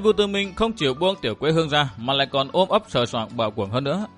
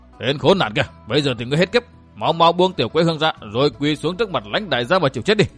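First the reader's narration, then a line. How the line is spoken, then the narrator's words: Barking shout. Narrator (Vietnamese): Họ Cam quát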